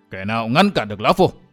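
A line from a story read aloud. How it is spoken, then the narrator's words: Gritted voices. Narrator (Vietnamese): Thanh Long giáo chủ và bàng đàn chủ gằn giọng nói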